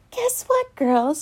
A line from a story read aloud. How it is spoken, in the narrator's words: she exclaims